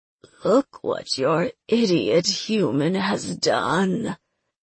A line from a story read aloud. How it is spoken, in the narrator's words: the mistress wheezed